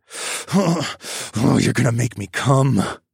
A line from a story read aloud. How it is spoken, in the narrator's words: growled out